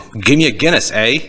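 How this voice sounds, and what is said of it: Bad put-on Irish accent. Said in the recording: “We are sorry if we are insulting anyone who actually has, okay, an Irish accent ... that's how bad of a... ... Is that how people in Ireland talk, dude? I don't think so.”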